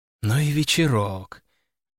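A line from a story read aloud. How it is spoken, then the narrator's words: Sighing. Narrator (Russian): вздохнула Валерия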